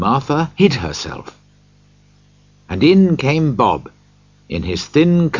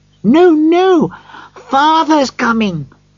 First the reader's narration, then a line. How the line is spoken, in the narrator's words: cried the two young Cratchits